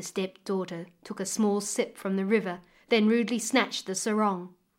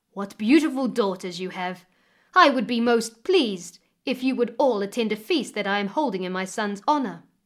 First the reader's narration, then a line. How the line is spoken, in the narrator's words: politely, he exclaimed